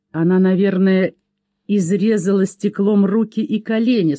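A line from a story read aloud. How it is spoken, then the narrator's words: Plain. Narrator (Russian): сказал Пэт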